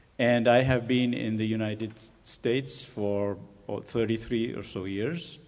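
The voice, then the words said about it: Non-native English accent. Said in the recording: “my accent, those three migrations should explain it.”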